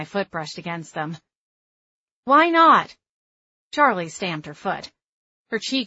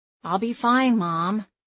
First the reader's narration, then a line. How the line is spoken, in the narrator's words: I said